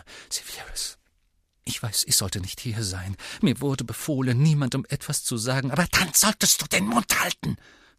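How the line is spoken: Hiss. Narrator (German): fauchte Bellatrix

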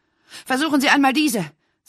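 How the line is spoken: Breathless. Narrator (German): sagte sie atemlos

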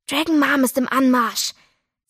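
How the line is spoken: Warning hiss. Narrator (German): zischte Doro warnend

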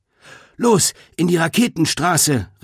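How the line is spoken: Calling to group. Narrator (German): rief Greta den anderen zu

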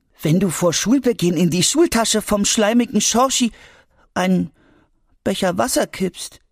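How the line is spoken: Sad. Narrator (German): sagte Albi traurig

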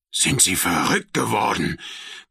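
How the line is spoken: Bearded man roaring. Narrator (German): brüllte der Bärtige

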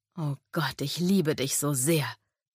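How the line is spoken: Moaning. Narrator (German): stöhnte er

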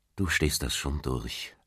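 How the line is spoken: Gentle. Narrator (German): antwortete Patrick sanft

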